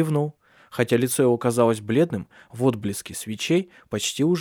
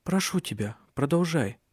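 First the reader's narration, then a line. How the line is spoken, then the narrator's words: Quiet. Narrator (Russian): тихо сказала Сесилия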